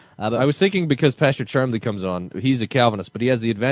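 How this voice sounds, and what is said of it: Usual voice. Nothing is said of it.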